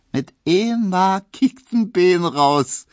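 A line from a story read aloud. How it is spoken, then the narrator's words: Laughing call. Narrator (German): rief Emma lachend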